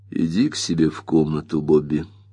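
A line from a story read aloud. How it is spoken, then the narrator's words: Quiet. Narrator (Russian): негромко сказал Тед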